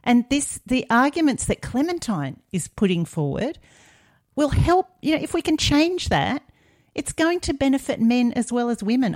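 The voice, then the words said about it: Frustrated, exasperated speaking voice. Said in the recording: “You can probably hear it in my voice. ... The frustration.”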